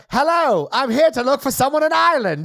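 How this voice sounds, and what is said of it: Exaggerated transatlantic accent imitation. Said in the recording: “her wild transatlantic accent”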